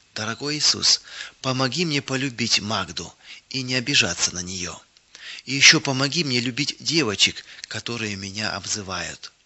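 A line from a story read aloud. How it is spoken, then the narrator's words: Sincere whisper. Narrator (Russian): искренне шептала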